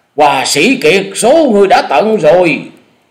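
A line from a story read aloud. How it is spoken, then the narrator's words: Loud roar. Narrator (Vietnamese): Lan Điểu Phi Hồng gầm to nói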